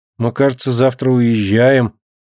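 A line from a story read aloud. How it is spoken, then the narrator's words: Uncertain. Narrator (Russian): неуверенно предполагает Мышка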